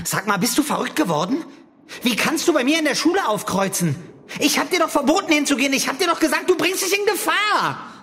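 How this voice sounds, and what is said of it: Angry shouting. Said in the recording (German): “Schrei doch nicht so ... Du schreist, du läufst rot an”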